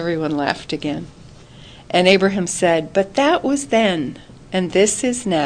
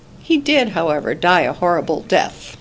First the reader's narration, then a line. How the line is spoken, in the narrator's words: said dryly